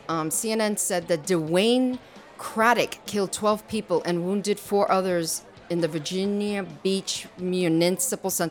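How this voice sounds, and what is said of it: Puerto Rican accent. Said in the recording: “my Puerto Rican accent is coming ... Out.”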